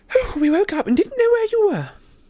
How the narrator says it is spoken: she said breathlessly

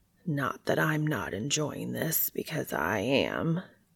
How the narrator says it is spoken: Cass says in a husky voice

